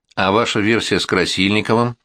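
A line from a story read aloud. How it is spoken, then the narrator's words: Plain. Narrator (Russian): спросил он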